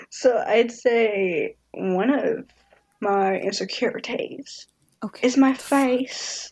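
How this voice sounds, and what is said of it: Speaks in a put-on accent. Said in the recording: “I don't know why I'm doing accents. I'm sorry. I do it all the time.”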